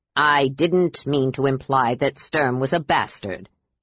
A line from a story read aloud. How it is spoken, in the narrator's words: Derek said gruffly